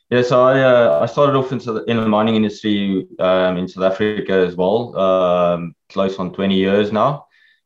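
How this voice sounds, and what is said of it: South African accent. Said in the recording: “you've got a South African accent”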